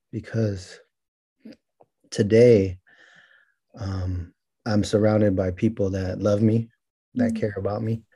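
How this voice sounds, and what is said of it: Emotional, halting voice. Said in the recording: “I get emotional”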